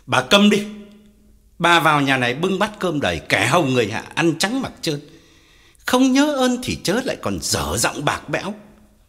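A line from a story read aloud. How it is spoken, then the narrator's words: Pale with rage, shouting. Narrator (Vietnamese): Ông Phú tái mặt quát lớn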